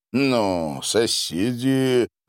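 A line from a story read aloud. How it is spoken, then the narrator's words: Sinister, through teeth. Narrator (Russian): зловеще процедил проф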